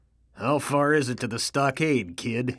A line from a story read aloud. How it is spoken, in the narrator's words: he asks in a husky manner of voice